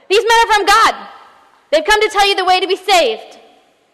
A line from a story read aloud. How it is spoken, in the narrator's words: this young girl screams out of nowhere